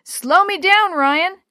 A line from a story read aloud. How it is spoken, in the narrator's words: Willie yelled